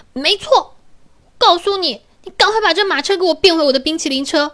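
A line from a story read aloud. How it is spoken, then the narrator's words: Angry. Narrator (Chinese): 公主啊也是怒气冲冲的说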